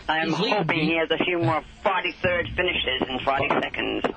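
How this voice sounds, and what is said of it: New England accent. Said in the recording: “It's my New England accent”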